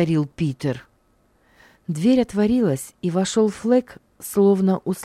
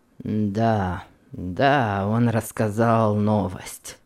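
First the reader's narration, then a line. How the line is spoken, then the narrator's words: Sullen mutter. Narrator (Russian): пробормотал Флек угрюмо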